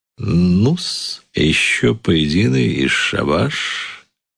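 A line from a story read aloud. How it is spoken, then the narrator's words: Plain. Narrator (Russian): говорит он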